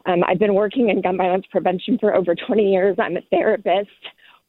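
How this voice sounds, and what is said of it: Breathless, out-of-breath speech. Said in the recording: “I'm actually on a run, sorry, I'm out of breath”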